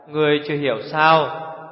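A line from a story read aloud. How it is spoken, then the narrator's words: Sighing. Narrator (Vietnamese): Tiểu Phi thở dài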